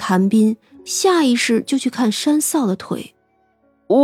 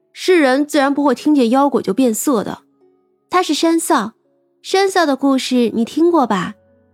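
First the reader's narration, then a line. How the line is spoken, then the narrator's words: Laughing. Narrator (Chinese): 薛冲也笑道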